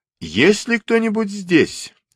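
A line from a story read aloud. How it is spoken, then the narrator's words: Loud question. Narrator (Russian): громко спросил Фонарщик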